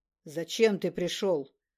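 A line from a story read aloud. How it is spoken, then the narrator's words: Booming echoing voice. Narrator (Russian): Могучим эхом прогремел голос адаманта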